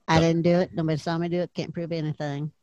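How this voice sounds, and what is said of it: Bart Simpson cartoon voice impression. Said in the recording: “Sounds like you got a frog in your throat. ... Got Bart Simpson stuck in there.”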